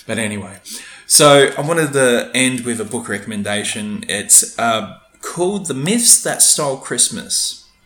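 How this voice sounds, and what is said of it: Rough, husky, failing voice. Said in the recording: “my voice is going. I haven't fluided it. I haven't lubricated it. It's getting a bit rough and husky.”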